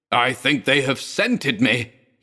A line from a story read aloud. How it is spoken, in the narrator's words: he shrieked